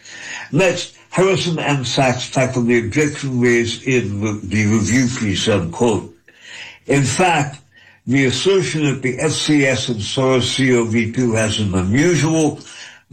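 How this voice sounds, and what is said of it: Slow, deliberate reading. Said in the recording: “reading this slowly, repeating certain pieces of this”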